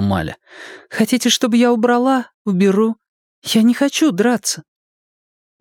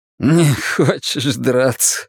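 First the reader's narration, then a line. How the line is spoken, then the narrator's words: Laughing. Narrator (Russian): рассмеялся Соа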